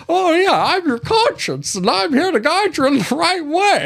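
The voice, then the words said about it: Jimmy Stewart impression. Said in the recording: “a cricket doing a Jimmy Stewart impression”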